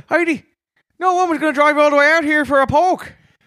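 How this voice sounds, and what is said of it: Put-on Newfoundland accent. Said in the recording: “Can you say that in a Newfoundland accent?”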